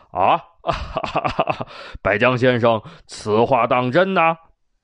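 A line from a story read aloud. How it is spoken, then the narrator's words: Loud hearty laugh. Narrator (Chinese): 秦武王朗声笑道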